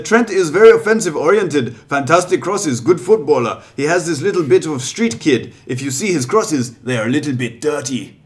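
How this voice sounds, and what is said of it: Put-on German accent. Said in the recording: “the German accent doesn't help... I'll do it again for you later.”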